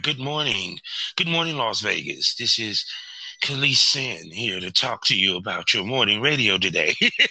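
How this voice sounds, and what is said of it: Smooth, relaxing radio announcer voice. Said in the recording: “you have such a, like, radio voice ... they're just so relaxing”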